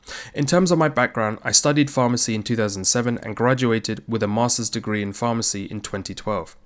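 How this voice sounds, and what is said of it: London English accent. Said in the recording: “as you can tell from my accent, I was born in the UK, specifically London, England.”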